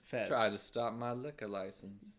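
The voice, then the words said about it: Put-on Southern US accent. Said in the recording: “your southern accent. ... Mine's better than yours. ... Yours is Texas.”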